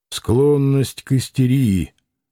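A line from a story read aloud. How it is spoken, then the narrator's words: Grumbled mutter. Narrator (Russian): буркнул Макаров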